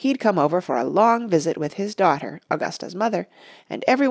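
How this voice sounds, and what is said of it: Usual voice. Nothing is said of it.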